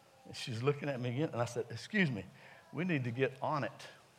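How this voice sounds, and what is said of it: Southern US accent. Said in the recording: “She's from Maine. So she doesn't understand my southern dialect. So I've always said on, like O-W-N”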